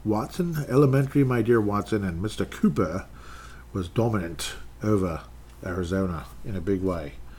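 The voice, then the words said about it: Put-on British or Australian accent. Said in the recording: “I don't know which accent I'm even trying to do, if it's British or Australian.”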